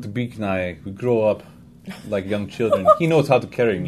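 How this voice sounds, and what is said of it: Put-on Russian accent. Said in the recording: “Now you're Russian. ... The accent is a revolving door. ... His first brain is Russian. His second brain is Russian.”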